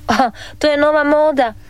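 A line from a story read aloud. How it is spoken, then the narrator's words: Father laughing. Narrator (Croatian): nasmija se tata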